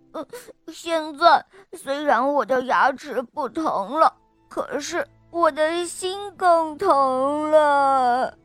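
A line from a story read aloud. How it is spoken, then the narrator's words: Sobbing. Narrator (Chinese): 小老虎巴格一边哭一边呜咽着说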